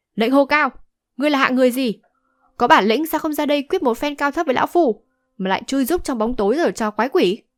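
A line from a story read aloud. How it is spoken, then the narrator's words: Angry old man shouting. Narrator (Vietnamese): lão giận dữ hét to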